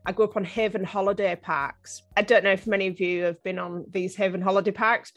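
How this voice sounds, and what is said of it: Strong northeast English accent. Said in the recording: “I actually grew up on the northeast coast of England, as you can probably tell by my very strong Game of Thrones accent.”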